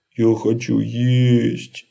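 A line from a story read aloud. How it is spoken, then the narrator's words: Whine. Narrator (Russian): захныкал он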